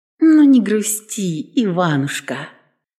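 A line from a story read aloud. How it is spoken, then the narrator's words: Affectionate, tender. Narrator (Russian): сказала ласково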